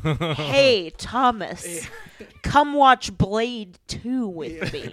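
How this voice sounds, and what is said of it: Imitates another person's voice. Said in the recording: “That's a good impression. ... It's almost a Jack Nicholson”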